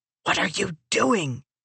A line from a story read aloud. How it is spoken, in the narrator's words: Timber pulsed